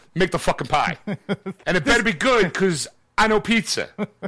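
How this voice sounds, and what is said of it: Exaggerated Philadelphia accent. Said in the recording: “Hey, you hear this accent? You know where I'm from? Philadelphia.”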